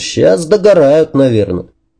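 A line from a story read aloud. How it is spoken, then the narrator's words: Casual, almost cheerful question. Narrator (Russian): Он спросил это буднично, почти весело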